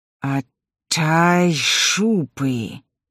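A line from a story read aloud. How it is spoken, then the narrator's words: Hissing crocodile. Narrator (Russian): шипел крокодил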